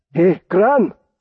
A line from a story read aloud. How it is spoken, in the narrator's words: came a muffled shout from outside the room